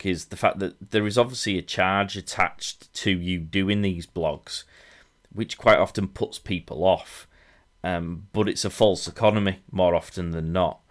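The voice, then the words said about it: High-pitched, coarse Yorkshire accent. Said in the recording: “my high-pitched, coarse Yorkshire accent”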